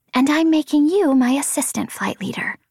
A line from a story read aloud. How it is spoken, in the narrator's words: Vapor said